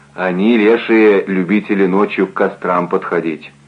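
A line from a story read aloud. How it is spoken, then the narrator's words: Calm explanation. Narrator (Russian): спокойно объяснил Евтей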